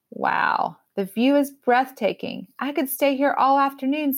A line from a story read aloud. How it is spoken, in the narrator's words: says Mimi